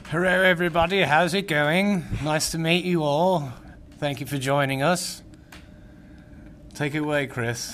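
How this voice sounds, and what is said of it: Speaks with an accent. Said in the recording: “I didn't know I was gonna get the accent”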